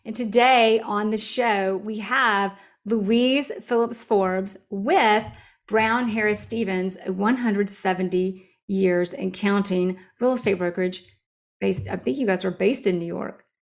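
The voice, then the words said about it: Southern US accent. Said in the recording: “I love that Southern accent”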